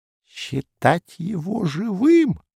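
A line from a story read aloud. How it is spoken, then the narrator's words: Hollow, booming whisper. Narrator (Russian): гулко прошептал доморощенер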